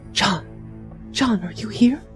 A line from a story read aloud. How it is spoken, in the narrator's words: said my sister, just above a whisper